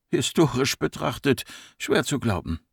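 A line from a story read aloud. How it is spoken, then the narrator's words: Murmuring. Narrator (German): murmelte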